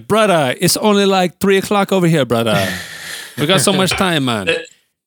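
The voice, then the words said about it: Put-on Jamaican patois accent. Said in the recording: “that was more of a Jamaican patois accent.”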